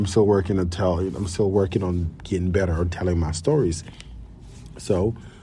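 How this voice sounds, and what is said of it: Usual voice. Nothing is said of it.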